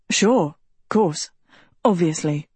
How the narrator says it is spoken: Tedros stammered

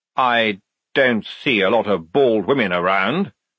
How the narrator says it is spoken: snapped Frock

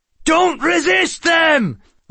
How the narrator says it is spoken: Lachland shouted

